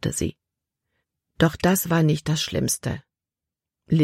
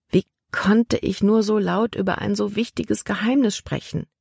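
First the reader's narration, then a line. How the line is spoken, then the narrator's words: Sighing to herself. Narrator (German): Libby seufzte vor sich hin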